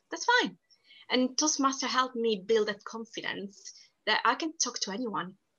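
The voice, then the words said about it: Strong non-native English accent. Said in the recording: “my accent isn't perfect and people do make fun out of my accent ... my strong accent”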